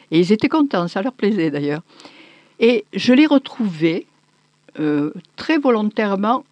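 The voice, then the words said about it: Southern French accent. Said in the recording (French): “l'accent de quelqu'un qui sait qu'elle passe sur une onde ... moins appuyé ... cet accent-là, il est un peu rare ... vraiment l'accent”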